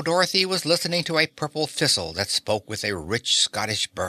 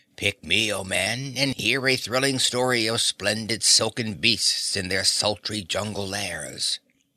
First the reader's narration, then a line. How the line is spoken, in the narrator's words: heard the flower say in a throaty voice